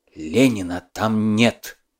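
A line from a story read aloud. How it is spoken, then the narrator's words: Whisper. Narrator (Russian): Владимиров шепотом сказал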